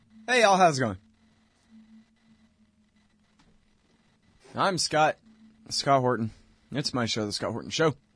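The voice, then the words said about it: Flat, unenthusiastic sarcastic delivery. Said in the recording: “I know I sound really excited, don't I?”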